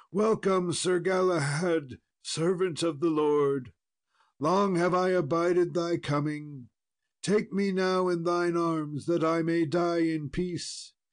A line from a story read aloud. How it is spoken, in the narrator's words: the king, who cried out